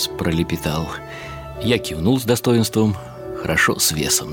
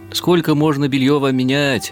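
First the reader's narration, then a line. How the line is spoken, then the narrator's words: Nurse shouting. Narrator (Russian): нянечка кричала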